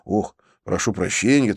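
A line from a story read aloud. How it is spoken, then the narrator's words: Hurried. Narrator (Russian): торопливо добавил я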